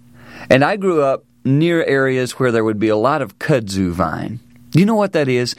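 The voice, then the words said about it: American Southern accent. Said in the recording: “I grew up down south, as you can tell by my accent”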